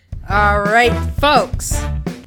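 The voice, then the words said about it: Announcer voice. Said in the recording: “do my announcer voice”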